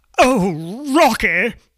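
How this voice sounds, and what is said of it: Theatrical imitation of a musical character. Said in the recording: “my Dr. Frankenfurter impersonation”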